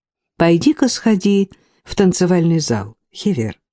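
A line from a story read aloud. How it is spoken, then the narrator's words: Gentle, affectionate. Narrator (Russian): ласково обратилась к ней Касси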